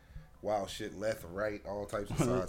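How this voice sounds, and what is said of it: Country-sounding drawl. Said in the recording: “Why you sound country?”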